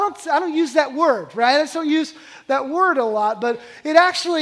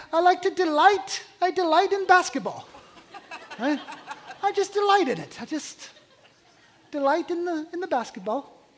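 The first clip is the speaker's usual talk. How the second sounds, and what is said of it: Put-on accent, possibly Irish. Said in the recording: “I don't know what accent I'm trying to nail there. Is there lucky charms, maybe? I'm not sure.”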